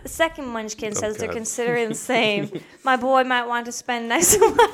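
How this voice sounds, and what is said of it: Put-on British accent. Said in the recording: “Should I read in a British accent?”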